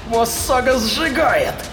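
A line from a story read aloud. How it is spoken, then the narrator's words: Shout. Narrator (Russian): крикнула Рахель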